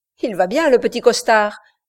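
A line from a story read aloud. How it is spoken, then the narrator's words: Exclamation. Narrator (French): s'écria Garnett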